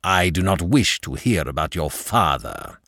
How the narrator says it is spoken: snapped

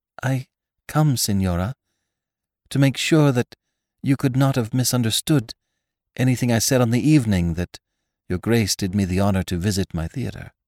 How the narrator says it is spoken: she began almost timidly

